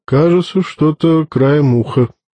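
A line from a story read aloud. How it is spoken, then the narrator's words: Hesitant drawl, officer. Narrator (Russian): неуверенно протянул офицер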